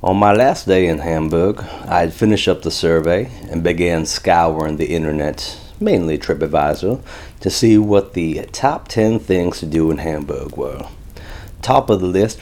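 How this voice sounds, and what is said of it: Daniel Craig's Benoit Blanc Southern accent. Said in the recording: “my Daniel Craig character, Knives Out, Benoit Blanc, Southern accent”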